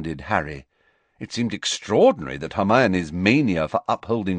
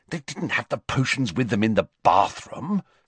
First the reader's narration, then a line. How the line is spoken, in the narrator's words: said Hermione scornfully